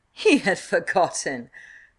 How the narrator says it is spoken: cried Avon

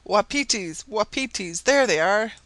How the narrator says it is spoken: cried Sabine and Marbre at once

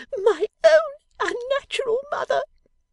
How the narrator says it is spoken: screamed the young lady

